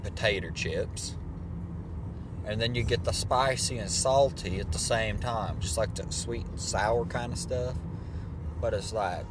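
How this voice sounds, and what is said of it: Slight put-on accent. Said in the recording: “I don't know why I kind of went into a little bit of an accent here”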